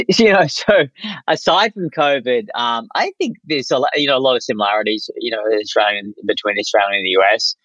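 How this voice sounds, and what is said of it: Australian accent. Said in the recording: “if I didn't have a funny accent, no one would realize that I wasn't from here”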